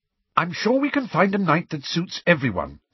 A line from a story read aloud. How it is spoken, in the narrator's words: said Hermione slightly impatiently